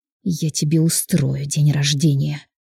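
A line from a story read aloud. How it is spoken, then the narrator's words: Hiss. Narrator (Russian): зашипела Маргарита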